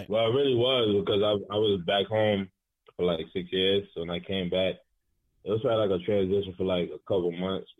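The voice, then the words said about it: New York accent. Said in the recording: “you have a more of a New York accent. Than South Carolina, of course.”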